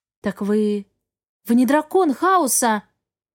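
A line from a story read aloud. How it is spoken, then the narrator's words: Exclamation. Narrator (Russian): воскликнула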